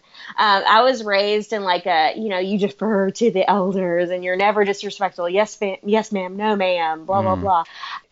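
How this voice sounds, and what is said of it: Southern American accent. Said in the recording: “I'm obviously Southern, you hear the accent.”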